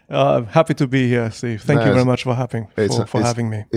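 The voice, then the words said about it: German-accented English. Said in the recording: “you don't have what we would typically call a London accent or a Londoner's accent. ... I believe, a German accent.”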